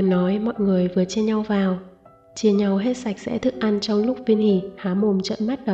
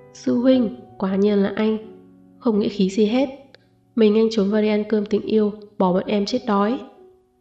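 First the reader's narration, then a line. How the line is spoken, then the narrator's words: Angry group clamor. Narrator (Vietnamese): Gương mặt mọi người đều đổi thành vẻ tức giận, kêu réo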